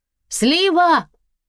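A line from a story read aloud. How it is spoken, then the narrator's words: Shouting. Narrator (Russian): крикнула она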